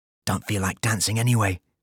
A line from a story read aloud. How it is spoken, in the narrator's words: whispered